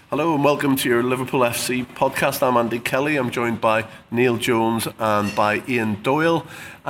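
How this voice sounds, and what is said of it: Sick-sounding voice. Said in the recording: “Lots of lurgy flying around the office, as you can probably tell in my voice.”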